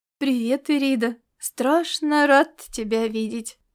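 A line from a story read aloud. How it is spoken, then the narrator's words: Soft, gentle. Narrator (Russian): мягко проговорил он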